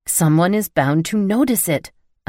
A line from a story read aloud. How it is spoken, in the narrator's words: I growled